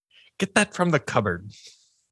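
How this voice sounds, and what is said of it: Brief, poor British accent. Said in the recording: “started with a British accent and then just abandoned it entirely... I'm terrible at British accents”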